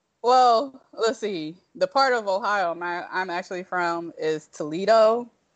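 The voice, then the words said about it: Slight non-New York American accent. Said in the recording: “you have a bit of an accent. That's not a New York accent.”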